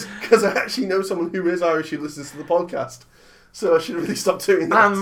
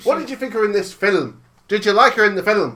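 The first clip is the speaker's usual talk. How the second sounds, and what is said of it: Bad put-on Irish accent, sounds Jamaican. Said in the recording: “Why are you doing a Jamaican accent? ... It's meant to be Irish. ... Oh God, that's terrible.”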